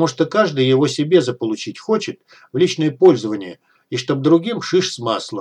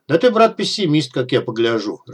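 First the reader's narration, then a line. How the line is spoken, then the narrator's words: Laughing. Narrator (Russian): рассмеялся Дегтярь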